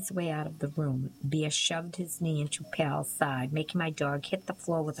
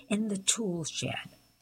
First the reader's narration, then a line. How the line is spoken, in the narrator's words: he sneered